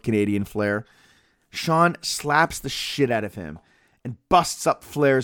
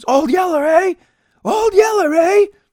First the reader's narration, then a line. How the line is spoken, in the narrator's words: gets into face and screams